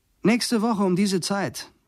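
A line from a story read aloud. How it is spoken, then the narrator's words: Calling again. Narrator (German): ruft Leo wieder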